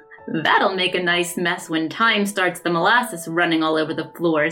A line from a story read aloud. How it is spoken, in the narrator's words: said Jim with a chuckle